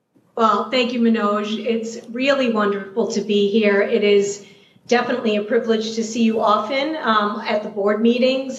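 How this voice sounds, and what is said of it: New York City accent. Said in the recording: “From your accent, I can tell you're from New York ... Yes, you definitely picked up my New York City accent.”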